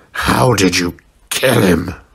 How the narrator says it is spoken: Sabretooth growled

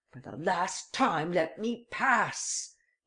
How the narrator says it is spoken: he cried

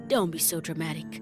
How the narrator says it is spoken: Dad said softly

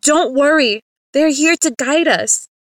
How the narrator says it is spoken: Miss Brecker yelled

